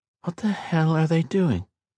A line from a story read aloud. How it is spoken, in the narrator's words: he muttered